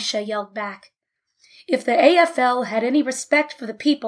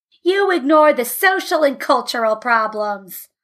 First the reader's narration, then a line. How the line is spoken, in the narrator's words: yelled Hirsch